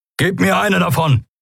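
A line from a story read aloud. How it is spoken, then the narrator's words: Called out. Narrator (German): rief Kero Endriel zu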